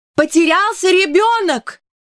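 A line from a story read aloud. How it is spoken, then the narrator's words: Shout. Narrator (Russian): Мэри Поппинс тоже закричала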